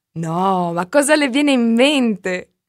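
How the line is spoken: Protesting while laughing. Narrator (Italian): protestò Marta ridendo

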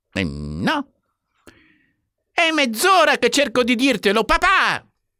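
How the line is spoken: Outburst. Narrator (Italian): sbottò Warren

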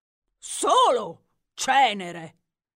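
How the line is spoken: Warrior's thundering voice. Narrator (Italian): tuonò il grande guerriero d'ebano

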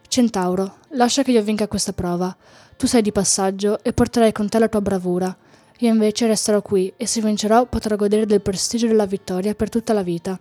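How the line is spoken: Whisper. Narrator (Italian): Melchio sussurrò

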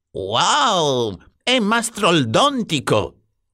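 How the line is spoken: Exclaimed. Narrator (Italian): esclamò

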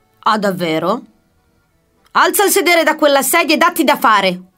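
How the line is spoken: Shouted. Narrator (Italian): urlò Osvaldo all'indirizzo del suo assistente

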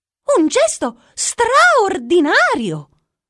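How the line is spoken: Jester exclaiming. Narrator (Italian): esclamò il buffone

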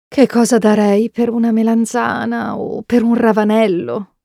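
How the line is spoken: Sigh. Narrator (Italian): sospira

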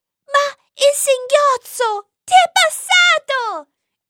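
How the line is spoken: Exclaimed. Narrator (Italian): esclamò Anna

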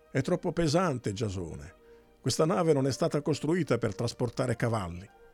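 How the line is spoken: Flushed, angry shout. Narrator (Italian): Medea, rossa in faccia, gridò

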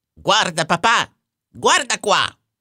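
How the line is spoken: Shouting. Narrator (Italian): gridò

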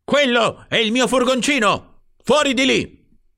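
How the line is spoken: Man yelling. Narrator (Italian): urlava l'uomo

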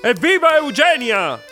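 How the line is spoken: Shouting. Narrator (Italian): grida Gian Grosso

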